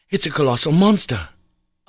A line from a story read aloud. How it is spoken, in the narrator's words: cried, clasping my hands